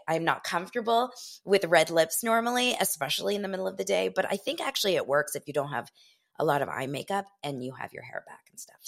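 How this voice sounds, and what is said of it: Voice a little rough and off. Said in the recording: “my voice is still a little screwed... I have some sort of cold. It's not a bad cold”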